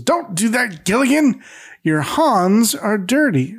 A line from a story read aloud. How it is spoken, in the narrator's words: Howe barks and says